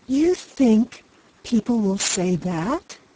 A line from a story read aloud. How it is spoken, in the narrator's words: She exclaimed